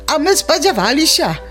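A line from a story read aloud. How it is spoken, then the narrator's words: Old voices exclaiming in unison. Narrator (Belarusian): У адзін голас усклікнулі старыя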